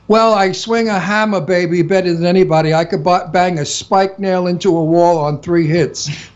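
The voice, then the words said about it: Genuine Brooklyn accent. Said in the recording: “I'm an Italian from Brooklyn. ... with a terrific Brooklyn accent, and my accent is real.”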